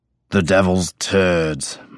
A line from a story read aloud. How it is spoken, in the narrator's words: my father growled